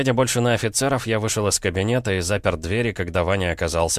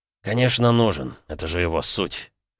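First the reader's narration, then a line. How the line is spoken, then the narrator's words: Smirking snort. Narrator (Russian): хмыкнул Ваня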